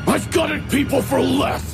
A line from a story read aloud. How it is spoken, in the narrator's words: He snarled